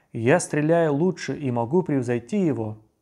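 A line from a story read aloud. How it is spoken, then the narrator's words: Exclamation. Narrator (Russian): Самура бин Джундаб воскликнул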